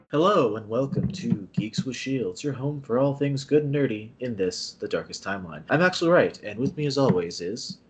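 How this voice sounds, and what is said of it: Smooth, mellow radio-host voice. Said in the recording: “I can't help getting to the smooth jazz voice ... That's your NPR voice”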